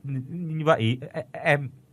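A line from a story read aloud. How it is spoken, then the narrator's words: Stammering man. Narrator (Vietnamese): Gã đàn ông lắp bắp nói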